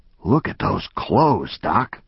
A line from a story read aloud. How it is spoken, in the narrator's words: One of the cops whispered